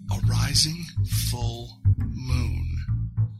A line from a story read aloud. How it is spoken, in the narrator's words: He lowered his voice to a whisper and said